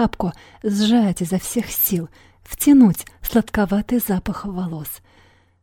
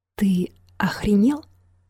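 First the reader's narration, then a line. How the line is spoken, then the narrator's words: Quiet question. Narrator (Russian): тихо спросила Юна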